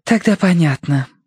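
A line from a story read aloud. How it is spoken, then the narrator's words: Relieved sigh. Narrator (Russian): облегченно вздохнула она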